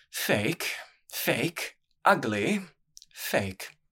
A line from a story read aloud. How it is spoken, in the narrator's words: muttering